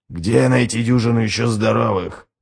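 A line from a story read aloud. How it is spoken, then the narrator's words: Whispered. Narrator (Russian): прошептал Ральф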